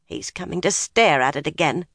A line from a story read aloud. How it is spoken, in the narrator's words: she muttered